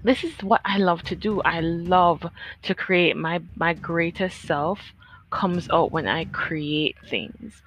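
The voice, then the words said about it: Smiling, happy-sounding voice. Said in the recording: “I have a big smile on my face. I don't know if you guys can hear that. Comment below if you hear the smile in my voice.”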